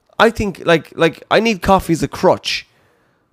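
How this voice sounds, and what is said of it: Usual voice. Nothing is said of it.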